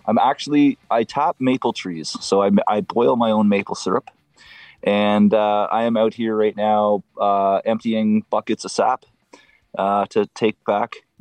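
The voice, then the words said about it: Canadian accent. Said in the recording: “we know you're from Canada because of the accent. We can tell.”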